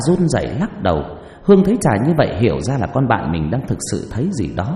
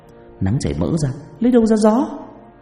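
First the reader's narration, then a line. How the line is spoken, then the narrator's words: Trembling voice. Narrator (Vietnamese): Trà run rẩy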